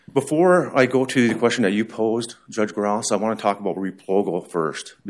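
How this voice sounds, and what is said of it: Crackly voice from a cold. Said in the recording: “My voice might be a little crackly because I woke up with a cold yesterday.”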